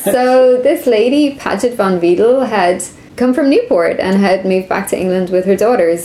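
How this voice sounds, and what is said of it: Irish accent. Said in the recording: “she heard my accent and she's like, "Oh, you're Irish.”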